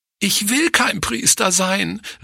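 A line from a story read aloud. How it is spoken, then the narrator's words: Sobbing cry. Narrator (German): rief sie schluchzend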